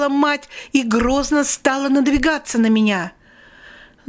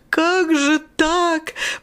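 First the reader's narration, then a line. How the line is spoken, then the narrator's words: Sobbing mother. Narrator (Russian): Мать разрыдалась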